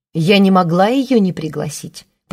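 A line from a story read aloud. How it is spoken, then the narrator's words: Old woman grumbling in reply. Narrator (Russian): проворчала в ответ старуха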